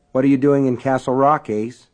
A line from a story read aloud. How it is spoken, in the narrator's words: Alan asked evenly